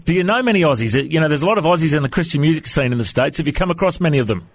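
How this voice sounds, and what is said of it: Australian accent. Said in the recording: “have you ever chatted to many people from Australia before? Is my accent okay?”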